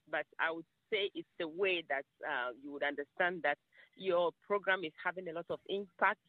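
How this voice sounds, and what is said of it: Slight accent. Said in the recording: “I have a little accent”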